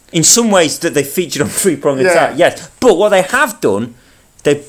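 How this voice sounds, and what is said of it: Usual voice. Nothing is said of it.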